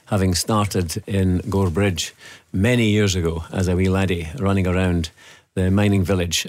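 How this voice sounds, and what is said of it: Mixed Scottish accent. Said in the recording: “that's some accent you've got in you ... It's a bit of a mix or a melange”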